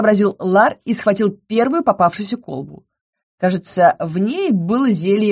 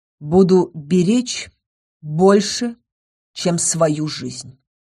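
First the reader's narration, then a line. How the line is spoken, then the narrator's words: Calm. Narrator (Russian): спокойно сказал Ингар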